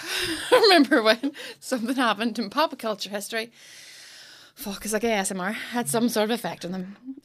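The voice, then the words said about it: Out of breath. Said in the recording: “I'm out of breath already.”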